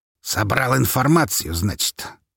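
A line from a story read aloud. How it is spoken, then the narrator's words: Snort. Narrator (Russian): фыркнул Павел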